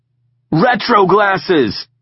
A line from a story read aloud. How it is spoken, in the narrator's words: he called out